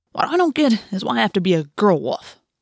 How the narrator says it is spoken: Marco grumbled

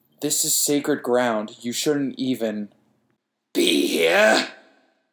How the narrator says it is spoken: it growled

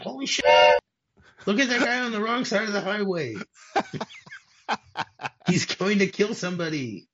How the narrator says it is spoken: a voice that screams out

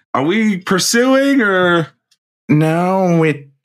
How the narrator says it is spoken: John Doe was just going to yell

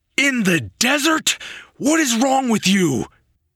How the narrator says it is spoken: It sent a shard of pain through his mind, and he shouted

